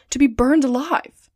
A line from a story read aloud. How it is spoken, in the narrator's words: exclaimed Passepartout